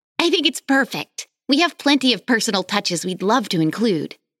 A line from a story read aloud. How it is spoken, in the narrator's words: Alex exclaimed